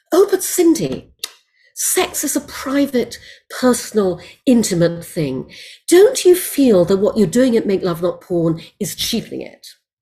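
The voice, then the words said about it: Put-on posh British woman's voice. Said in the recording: “some frightfully nice woman at the BBC in a British accent”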